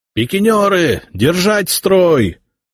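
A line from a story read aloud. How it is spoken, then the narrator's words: Shouted orders. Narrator (Russian): орали взводные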